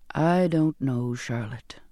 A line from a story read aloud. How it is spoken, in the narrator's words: he said wearily